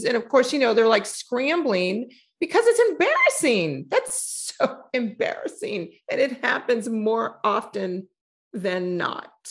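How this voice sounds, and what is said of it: Southern accent. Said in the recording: “when you get heated, your Southern accent comes out”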